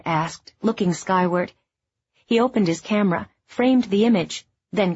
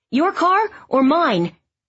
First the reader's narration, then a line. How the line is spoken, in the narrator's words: Todd shouted